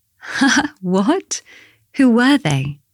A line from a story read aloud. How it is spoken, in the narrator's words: Bella laughed